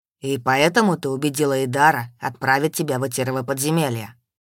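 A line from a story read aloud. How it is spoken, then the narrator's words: Still level voice. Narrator (Russian): Все еще ровным голосом спрашивал мой Таман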